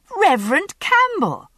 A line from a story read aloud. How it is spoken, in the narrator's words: I exclaimed